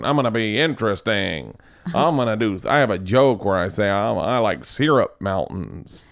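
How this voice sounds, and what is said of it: Imitates another person's voice. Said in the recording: “this is my Shane impression ... Your impression of him is a lot like your impression of Barry Katz.”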